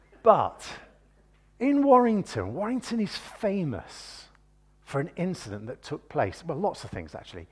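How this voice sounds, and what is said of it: Warrington regional English accent. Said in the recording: “I'm a Warringtonian by birth, which is why I talk with a funny accent.”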